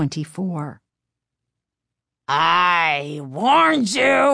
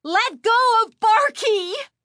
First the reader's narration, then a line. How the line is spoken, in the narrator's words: Chris screamed